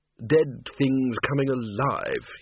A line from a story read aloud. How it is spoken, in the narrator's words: he murmured